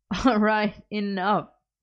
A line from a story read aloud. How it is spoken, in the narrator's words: Merlin laughed